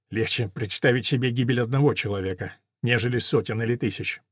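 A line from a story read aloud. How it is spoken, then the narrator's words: Muttering. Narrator (Russian): пробормотал барон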